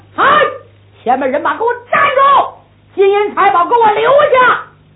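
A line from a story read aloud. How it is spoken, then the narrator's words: Loud shout. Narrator (Chinese): 郑玉春故此大喊一声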